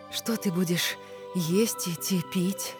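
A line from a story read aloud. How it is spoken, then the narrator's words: Whispered. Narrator (Belarusian): прашаптала Місуа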